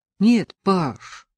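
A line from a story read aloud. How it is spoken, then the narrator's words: Sad. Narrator (Russian): сказал Чернов печально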